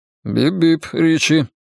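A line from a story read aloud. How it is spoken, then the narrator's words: Dry, smiling. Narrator (Russian): Бен сухо улыбнулся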